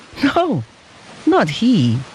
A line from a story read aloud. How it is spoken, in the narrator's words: answered the father with a happy laugh